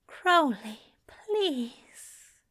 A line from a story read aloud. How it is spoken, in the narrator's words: The way he'd breathed, needy and begging